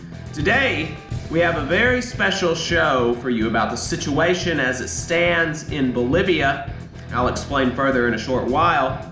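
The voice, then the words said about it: Sick, cold-affected voice. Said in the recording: “apologize for my voice. I've caught cold ... I've still got a bit of a sick voice.”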